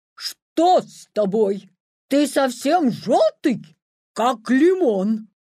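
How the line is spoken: Horrified shout. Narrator (Russian): Марабу в ужасе закричал

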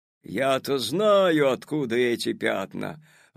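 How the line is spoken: Sudden menacing shout. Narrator (Russian): вдруг грозно закричал дядя Федя

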